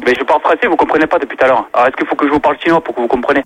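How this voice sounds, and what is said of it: Chinese accent in French. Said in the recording (French): “vous êtes un commerçant chinois... déjà avec l'accent”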